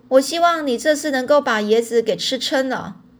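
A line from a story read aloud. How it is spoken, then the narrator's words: Shouting. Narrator (Chinese): 店主人喊着说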